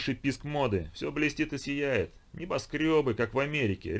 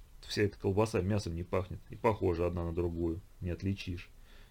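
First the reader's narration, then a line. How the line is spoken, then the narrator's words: Quiet. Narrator (Russian): тихо произнес Нестеренко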